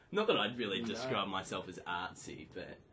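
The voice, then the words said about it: Exaggerated Bogan Australian accent. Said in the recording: “You say that with, like, increased Bogan accent?”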